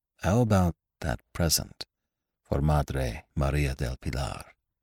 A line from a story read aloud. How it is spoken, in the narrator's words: asked in a low voice